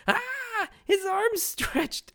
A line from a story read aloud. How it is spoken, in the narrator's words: Aisa is full on panic mode as she's hysterically screaming